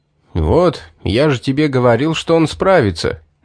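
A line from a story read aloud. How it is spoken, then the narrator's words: Pleased snort. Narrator (Russian): довольно хмыкнул Стоун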